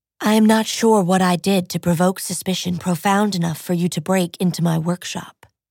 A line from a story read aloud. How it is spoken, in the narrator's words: Nero said evenly